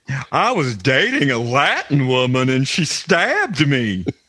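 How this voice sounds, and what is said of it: Imitates another person's voice. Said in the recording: “the really good Jim J. Bullock impersonation you're doing right now ... how good that impersonation was”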